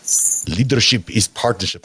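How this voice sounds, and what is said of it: Bad put-on French accent. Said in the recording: “It's a terrible French accent”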